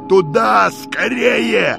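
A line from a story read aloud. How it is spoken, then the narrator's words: Shouting. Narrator (Russian): кричал калиной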